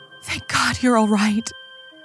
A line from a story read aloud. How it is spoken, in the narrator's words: she cried in relief